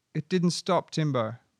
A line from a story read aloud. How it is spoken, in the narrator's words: Hannah called out to me